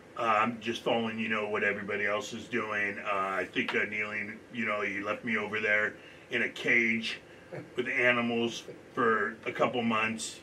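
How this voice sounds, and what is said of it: Deep-voiced impersonation of another person. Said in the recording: “her impersonation so well? Because she literally sounds like that. ... Yeah, I got a very deep voice.”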